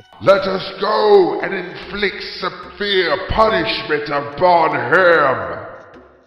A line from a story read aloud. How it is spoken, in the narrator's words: Ra-Har-Akhtia let out a loud bellow and said